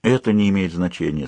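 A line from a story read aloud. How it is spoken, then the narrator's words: Calm statement. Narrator (Russian): спокойно заявила Едина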